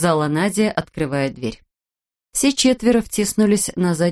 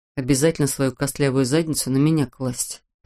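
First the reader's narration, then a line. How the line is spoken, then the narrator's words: Grumbling. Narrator (Russian): проворчал Петр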